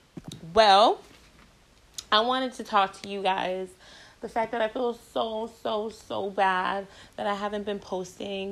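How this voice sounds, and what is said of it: Strained, fading voice. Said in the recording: “my voice is going. My voice has been going”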